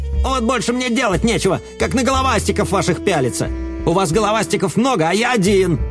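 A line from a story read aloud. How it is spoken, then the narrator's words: Snapping back. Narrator (Russian): огрызнулся Йот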